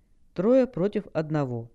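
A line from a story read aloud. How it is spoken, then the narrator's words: Calm remark, demon. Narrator (Russian): спокойно заметил бес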